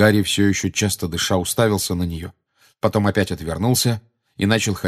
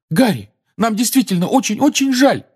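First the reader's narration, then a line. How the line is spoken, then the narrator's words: Desperate exclamation. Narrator (Russian): в отчаянии воскликнула Гермиона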